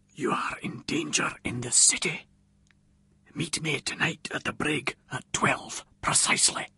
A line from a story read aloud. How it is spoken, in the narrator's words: a voice from behind me whispered distinctly in my ear